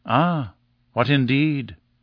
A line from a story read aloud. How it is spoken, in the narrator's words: I murmured